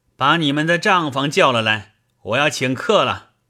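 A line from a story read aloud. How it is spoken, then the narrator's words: Sudden shout. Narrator (Chinese): 忽然听见一个人叫道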